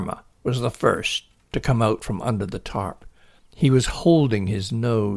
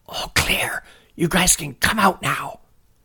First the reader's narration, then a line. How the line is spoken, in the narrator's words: Billy whispered